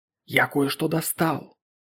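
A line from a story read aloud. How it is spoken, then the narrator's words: Hoarse whisper. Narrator (Russian): хриплым шепотом сказал писатель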